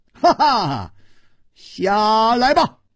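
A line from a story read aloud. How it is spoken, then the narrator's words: Laughing rebuke. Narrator (Chinese): 楚留香笑斥道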